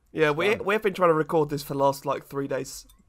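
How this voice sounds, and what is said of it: Sounds a bit ill. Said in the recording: “if I don't sound right, or if I sound a bit ill, or if I start coughing”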